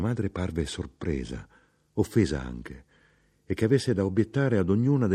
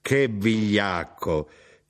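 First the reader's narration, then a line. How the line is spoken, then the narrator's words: Shout. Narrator (Italian): gridò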